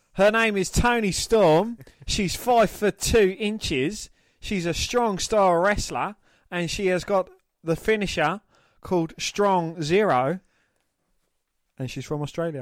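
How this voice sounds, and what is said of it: Put-on Australian accent. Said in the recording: “do it an Australian accent.”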